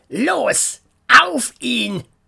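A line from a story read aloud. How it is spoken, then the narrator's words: Angry shout. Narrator (German): Kurt wurde wütend und schrie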